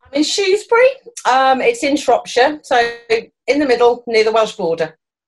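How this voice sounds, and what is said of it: Charming British English accent. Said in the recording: “you are based in the UK ... your accent is you could call me all the most horrible names in the world, and I would sit there smiling because it still sounds so charming”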